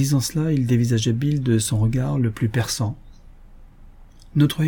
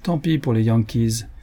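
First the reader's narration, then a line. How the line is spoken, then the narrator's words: Cold, general speaking. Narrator (French): fit le général froidement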